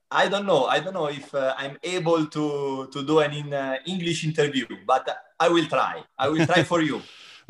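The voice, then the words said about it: Non-native English accent. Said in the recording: “you have your beautiful English, beautiful accent”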